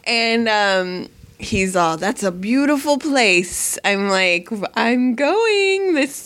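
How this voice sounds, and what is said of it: Usual voice. Nothing is said of it.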